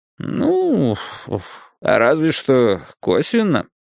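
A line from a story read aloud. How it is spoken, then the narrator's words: Drawling. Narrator (Russian): протянул Уолдегрейв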